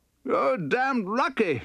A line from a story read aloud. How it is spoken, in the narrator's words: shouted